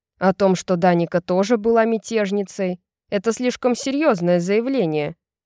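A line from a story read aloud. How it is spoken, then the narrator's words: Angry growl. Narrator (Russian): со злобным рычанием добавил он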